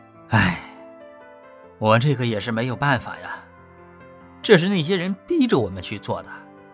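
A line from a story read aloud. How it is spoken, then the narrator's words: Laughing. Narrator (Chinese): 老陈笑道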